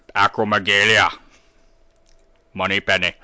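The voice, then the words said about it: Imitates another person's voice. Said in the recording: “You get Sean Connery to do it. Imagine him”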